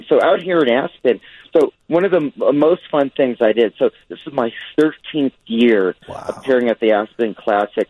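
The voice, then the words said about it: Hoarse voice. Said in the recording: “my voice is hoarse.”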